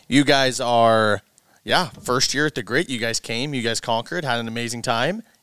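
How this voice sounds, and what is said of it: Hoarse, raspy, strained voice. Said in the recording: “my voice is shot. As you can hear, ... voice sounds a little bit sexier today ... it's a little grungy ... such a musky, raspy voice”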